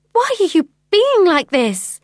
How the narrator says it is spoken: I cried

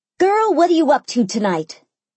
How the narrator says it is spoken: Mimi screeched into the phone

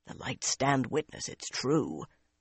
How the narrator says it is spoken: a grizzled carter muttered

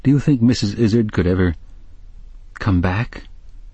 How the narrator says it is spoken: he said in a faltering voice

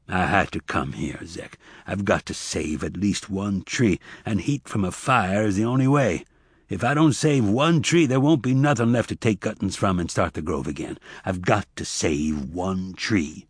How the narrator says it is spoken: Tobias said calmly

